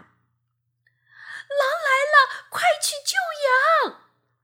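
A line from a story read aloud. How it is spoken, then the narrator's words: Breathless boy shouting. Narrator (Chinese): 小男孩气喘吁吁地对着劳作的村民喊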